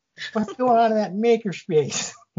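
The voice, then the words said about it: Exaggerated put-on Chicago accent. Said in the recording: “I want to do this in the most Chicago accent I can possibly.”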